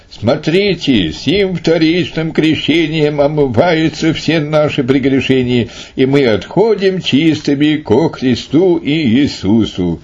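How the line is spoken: Loud invocation. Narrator (Russian): Последний, громким голосом воззвал

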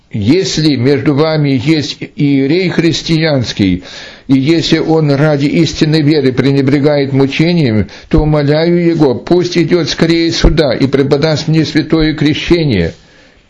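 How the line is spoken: Loud proclamation. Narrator (Russian): громко возгласил

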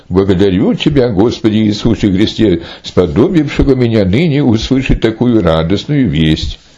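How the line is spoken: Joyful exclamation. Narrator (Russian): Епископ с великой радостью воскликнул

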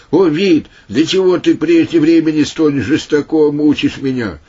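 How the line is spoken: Sudden shout, demon-possessed. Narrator (Russian): внезапно бес закричал устами сына царева, сказав

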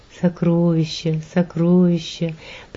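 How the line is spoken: Barely audible whisper. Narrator (Russian): приговаривал он едва слышным шепотом

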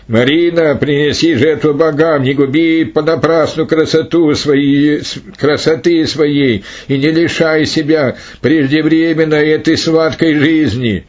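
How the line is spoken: Herald shouting. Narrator (Russian): Глашатый кричал

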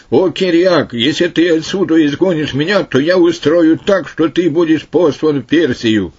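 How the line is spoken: Demonic shouting. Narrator (Russian): Дух нечистый закричал тогда, говоря

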